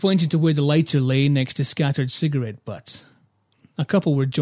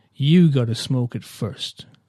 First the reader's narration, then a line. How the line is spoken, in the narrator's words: the woman said